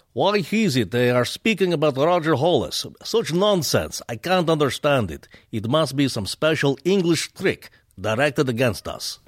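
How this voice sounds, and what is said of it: Put-on Russian accent. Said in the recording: “Please do a Russian accent. ... The eternal Russian guy?”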